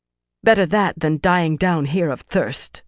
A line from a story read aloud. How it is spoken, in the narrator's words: Fael replied, her voice harsher than she wanted